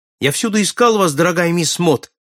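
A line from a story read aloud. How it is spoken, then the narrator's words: Joyful shout. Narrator (Russian): радостно крикнул он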